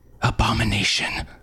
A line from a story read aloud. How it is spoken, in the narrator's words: Harm whispered, cringing away